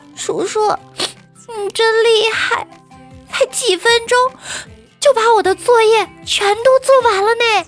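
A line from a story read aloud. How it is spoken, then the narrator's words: Shy, crying girl. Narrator (Chinese): 小姑娘哭着，害羞地说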